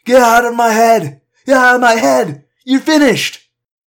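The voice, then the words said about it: Slurred shouting voice. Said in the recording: “in a slurred voice”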